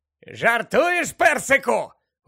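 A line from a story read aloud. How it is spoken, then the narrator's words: Exclaimed. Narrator (Ukrainian): вигукнув Фред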